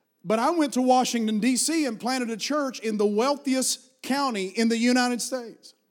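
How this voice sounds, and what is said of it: Appalachian American accent. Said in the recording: “I was raised in Appalachian Mountains, and I've carried this accent with me. It's better now than it used to be... I had to really work to get over your accent... with an accent like that”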